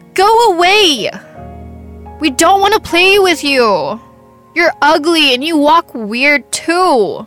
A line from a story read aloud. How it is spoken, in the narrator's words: They yelled